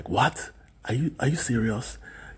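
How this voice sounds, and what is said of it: Imitated Nigerian accent. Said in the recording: “in that Nigerian accent.”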